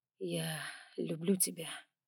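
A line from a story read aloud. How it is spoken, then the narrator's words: Quiet. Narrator (Russian): тихо начал он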